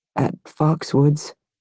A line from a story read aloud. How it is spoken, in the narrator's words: he mumbled